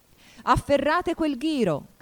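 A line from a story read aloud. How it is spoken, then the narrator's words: Shouting. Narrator (Italian): gridò la regina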